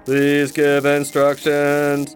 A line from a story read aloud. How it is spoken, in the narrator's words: it stated in a monotone